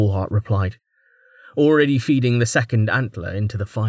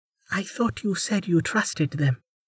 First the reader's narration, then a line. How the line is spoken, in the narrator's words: Kamaya said softly